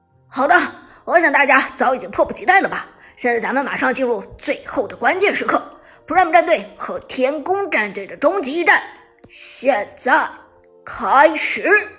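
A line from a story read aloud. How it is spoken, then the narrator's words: Loud announcement. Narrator (Chinese): 解说子豪大声的宣布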